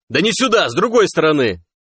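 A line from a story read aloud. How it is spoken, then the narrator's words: Yelling. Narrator (Russian): заорал Сом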